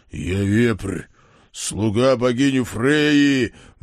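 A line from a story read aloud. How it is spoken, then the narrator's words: Furious roar. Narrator (Russian): взревел окончательно взбешенный сикач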